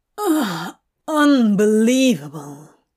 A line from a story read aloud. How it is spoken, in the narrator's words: Crowley groans